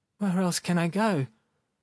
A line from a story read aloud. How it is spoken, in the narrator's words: Sharikov replied timidly